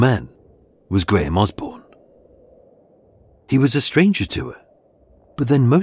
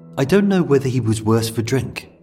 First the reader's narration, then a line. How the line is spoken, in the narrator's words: Bobby said